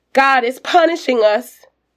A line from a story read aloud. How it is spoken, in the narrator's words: Betsy shouts